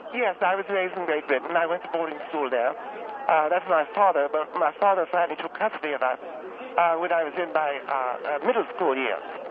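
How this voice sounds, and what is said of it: Put-on British accent. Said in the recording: “Talk to me with your regular voice. ... Well, you have a British accent.”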